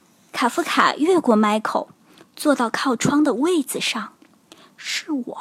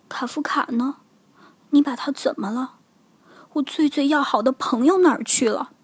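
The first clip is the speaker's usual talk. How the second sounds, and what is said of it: Quiet, hushed questioning. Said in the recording (Chinese): “小声问”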